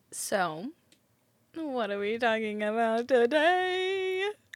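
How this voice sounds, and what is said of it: Radio DJ voice. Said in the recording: “You're like giving off like big radio DJ vibes. ... talking like a radio DJ”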